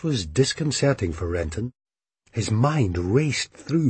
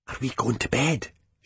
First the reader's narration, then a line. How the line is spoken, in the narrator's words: she whispered with a strangely casual intensity